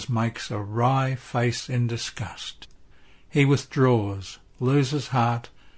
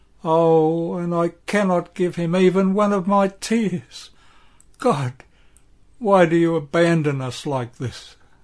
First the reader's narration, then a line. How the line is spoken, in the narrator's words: Mary says with a moan